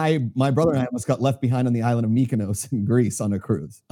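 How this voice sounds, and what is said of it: Usual voice. Nothing is said of it.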